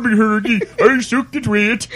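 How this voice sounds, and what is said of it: Mock Swedish accent gibberish. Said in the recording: “your Swedish Jeremy impression”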